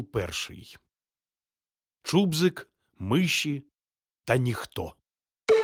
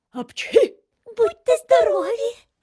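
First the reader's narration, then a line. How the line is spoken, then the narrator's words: Squeaky voice nearby. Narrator (Ukrainian): пропищало поряд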